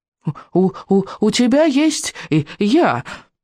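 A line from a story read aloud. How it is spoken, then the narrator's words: Squeaky. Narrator (Russian): пропищал Беззубик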